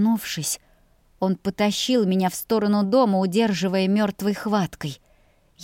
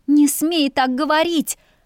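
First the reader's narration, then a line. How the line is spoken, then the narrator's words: Wailing. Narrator (Russian): взвыла я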